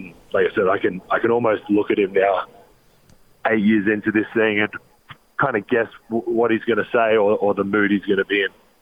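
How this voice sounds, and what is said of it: Australian accent. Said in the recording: “Australian accent of the word shoot ... it's your Australian accent ... you talk funny in our country”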